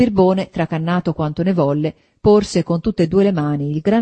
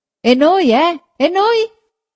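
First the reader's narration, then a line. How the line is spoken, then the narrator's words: Several voices shouting. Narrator (Italian): gridarono più voci dal carro che era avanti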